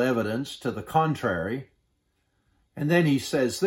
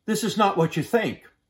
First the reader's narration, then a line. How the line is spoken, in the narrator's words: He exclaimed